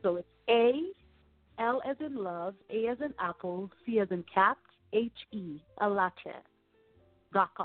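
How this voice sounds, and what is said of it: African accent. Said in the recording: “speaking of Africa, that beautiful accent that you guys hear from”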